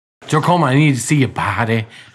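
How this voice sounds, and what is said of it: Imitates another person's voice. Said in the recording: “Is that your John Mayer impression? ... That's all I got. Bad.”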